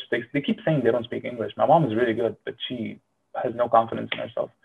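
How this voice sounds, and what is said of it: Slight Arabic accent. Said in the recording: “you probably hear a little bit of an accent ... I like made sure my accent was coming out”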